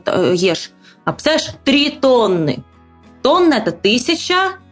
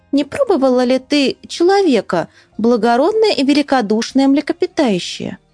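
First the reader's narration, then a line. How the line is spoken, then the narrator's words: Small sly voice. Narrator (Russian): маленькая хитренькая рыбка сказала ему маленьким хитреньким голосом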